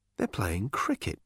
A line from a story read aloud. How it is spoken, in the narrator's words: muttered Arthur, stumbling along after Ford